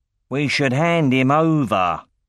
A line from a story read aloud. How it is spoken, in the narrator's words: snarled Sloane